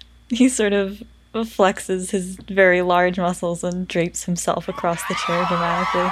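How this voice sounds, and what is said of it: Usual voice. Nothing is said of it.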